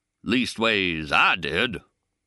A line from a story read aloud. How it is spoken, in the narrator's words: the king drawls out